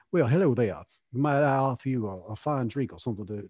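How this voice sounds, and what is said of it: Genteel Southern accent. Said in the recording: “romantic Southern expression, especially in the Magnolia Moonlight accent”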